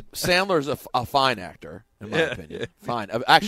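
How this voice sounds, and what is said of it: Usual voice. Nothing is said of it.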